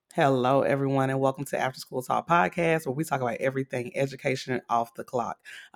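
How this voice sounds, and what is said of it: Raspy, congested voice. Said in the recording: “raspy voice ... it has me a little congested ... it's just giving me this raspy Eartha Kitt voice”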